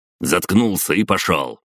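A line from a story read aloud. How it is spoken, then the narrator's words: Bark. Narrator (Russian): рявкнул Сидоровец с погонами майора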